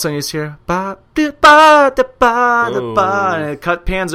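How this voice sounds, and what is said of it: Usual voice. Nothing is said of it.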